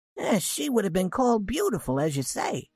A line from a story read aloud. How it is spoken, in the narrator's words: said Mrs